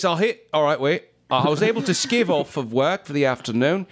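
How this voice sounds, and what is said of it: Put-on cockney British accent. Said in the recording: “doing it in a British off. Accent ... cockney? ... yeah, it's cockney”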